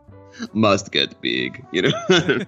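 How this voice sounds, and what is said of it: Imitates a bodybuilder's accent. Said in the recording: “it's got that Schwarzenegger... every muscle builder has a Schwarzenegger accent”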